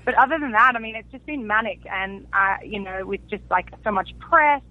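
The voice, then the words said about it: Australian accent. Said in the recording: “you're from Australia. I can tell by your accent”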